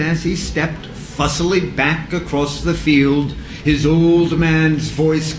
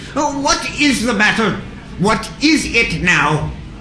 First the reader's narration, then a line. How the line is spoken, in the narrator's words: Their sharp voices cried about him on all sides